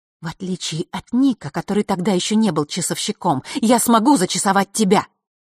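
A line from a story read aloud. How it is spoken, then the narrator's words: Tense ringing whisper. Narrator (Russian): звенящим от напряжения шепотом произнесла она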